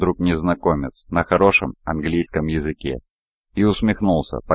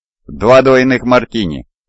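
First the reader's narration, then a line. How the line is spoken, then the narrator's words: Shout. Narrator (Russian): крикнул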